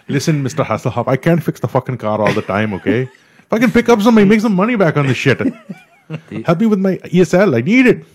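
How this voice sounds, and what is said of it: Put-on Indian accent. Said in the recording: “some Indian guy coming in there and go”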